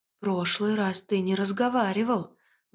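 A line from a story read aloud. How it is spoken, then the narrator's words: Forced out, strained. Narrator (Russian): выдавила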